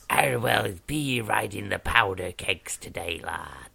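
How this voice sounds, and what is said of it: Put-on pirate voice. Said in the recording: “That sounds like a spooky sea person... Oh, a pirate. You know I like doing the pirate voice”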